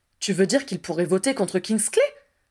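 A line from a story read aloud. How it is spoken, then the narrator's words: Dismayed exclamation. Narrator (French): s'exclama Harry atterré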